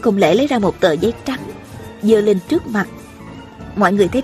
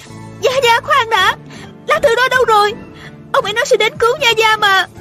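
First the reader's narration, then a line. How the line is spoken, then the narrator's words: Urgent cry. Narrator (Vietnamese): Tiêu Uyển Nhi vội la lên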